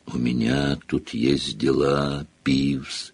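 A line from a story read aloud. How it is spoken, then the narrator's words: Creaky rasp. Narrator (Russian): проскрипел Гарри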